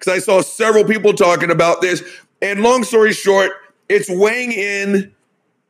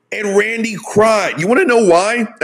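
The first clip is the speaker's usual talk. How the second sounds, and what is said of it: Voice cracking. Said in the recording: “my voice just cracked”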